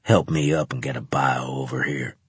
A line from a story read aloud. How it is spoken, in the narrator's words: he growled